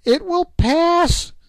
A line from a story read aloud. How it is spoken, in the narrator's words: she cried